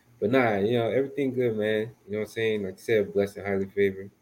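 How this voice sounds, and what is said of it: Smooth, sleepy late-night voice. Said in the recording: “you look sleepy ... Take the smoothness out your voice ... it's not the radio DJ voice. Late night. The long week Friday voice.”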